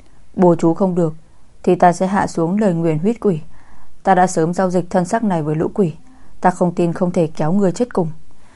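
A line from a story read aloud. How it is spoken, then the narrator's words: Muttering. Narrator (Vietnamese): Ông ta lẩm bẩm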